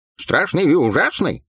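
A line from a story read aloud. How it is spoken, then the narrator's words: Short laugh. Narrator (Russian): хохотнул Бласк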